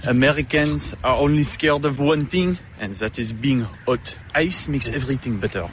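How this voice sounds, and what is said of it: Non-American accent. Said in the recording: “he has an accent. I thought he said blackfast”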